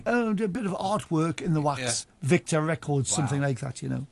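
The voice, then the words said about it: Geordie accent. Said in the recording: “my Geordie accent”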